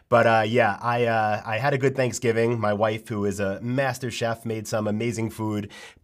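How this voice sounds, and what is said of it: Sick-sounding voice. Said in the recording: “you could probably tell by my voice right now, but I'm not feeling too well”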